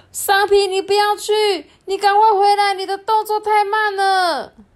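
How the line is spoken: Group shouting. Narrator (Chinese): 他的朋友们都大喊说

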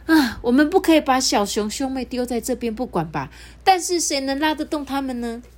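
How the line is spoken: Sighing. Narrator (Chinese): 五只小狐狸叹一口气说

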